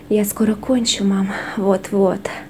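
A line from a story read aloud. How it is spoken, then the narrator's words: Breathless exhale. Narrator (Russian): выдохнул он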